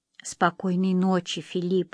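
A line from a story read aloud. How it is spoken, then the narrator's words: Whisper. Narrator (Russian): прошептала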